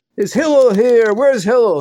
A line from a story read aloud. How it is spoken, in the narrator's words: called out in a chutzpahdik way